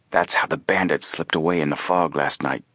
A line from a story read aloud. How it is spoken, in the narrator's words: whispered